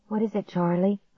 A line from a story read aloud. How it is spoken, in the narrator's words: I asked